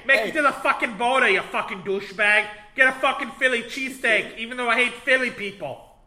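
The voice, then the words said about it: Put-on Boston accent. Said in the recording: “So we just have a Boston guy ... let's use our Boston guy”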